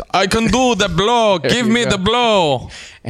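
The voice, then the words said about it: Put-on Turkish accent. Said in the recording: “Turkish accent.”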